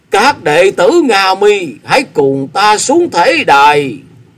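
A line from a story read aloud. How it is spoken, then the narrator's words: Tearful loud call. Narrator (Vietnamese): Ngộ Tịnh chân nhân gạt nước mắt, quay sang các đệ tử của mình lớn tiếng tiếp lời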